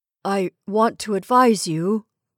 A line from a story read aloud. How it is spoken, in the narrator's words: began hoarsely